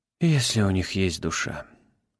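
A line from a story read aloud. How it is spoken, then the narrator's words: Senior investigator sighing. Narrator (Russian): вздохнул старший следователь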